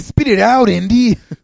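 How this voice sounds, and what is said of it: Poor imitation of a movie character. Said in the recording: “is that the worst impression I've ever done?”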